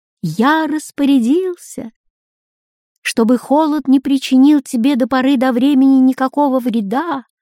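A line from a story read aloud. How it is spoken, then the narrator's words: Thin ringing voice. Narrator (Russian): ответил кто-то тоненьким звонким голосом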